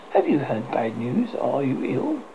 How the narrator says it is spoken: his wife asked timidly

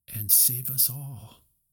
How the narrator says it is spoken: Moana breathed

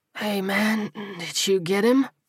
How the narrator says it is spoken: He slurred

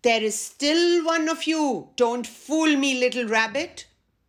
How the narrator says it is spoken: The lion roared

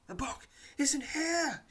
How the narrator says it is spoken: she cries, her voice panic-stricken

